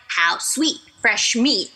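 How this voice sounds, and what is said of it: Scary menacing character voice. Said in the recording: “I have such a scary voice.”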